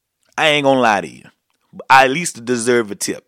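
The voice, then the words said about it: Weak imitation of New Orleans accent. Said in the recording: “I'm done trying to talk like a New Orleanian. I'm not any good at it.”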